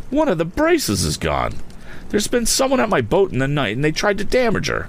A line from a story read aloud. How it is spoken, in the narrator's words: cried out